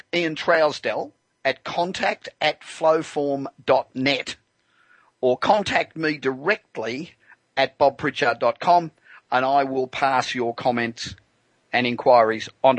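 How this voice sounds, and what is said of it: English or Australian accent. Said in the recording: “I love your accent. I assume that you're either English or Australian.”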